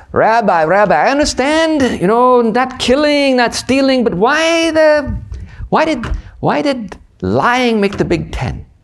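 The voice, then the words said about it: Put-on Yiddish accent. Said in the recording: “maybe my Yiddish accent will be a little better”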